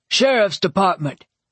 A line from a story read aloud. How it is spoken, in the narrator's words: Beau called out, his voice harsh